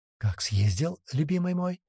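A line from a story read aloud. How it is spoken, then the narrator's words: Whispered in ear. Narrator (Russian): прошептала на ухо жена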